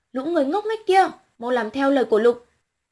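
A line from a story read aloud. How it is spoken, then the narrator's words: Loud shout. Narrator (Vietnamese): Renaud hét lớn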